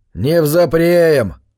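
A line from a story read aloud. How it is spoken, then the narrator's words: Carpenter's snort. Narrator (Russian): фыркнул плотник Стаутон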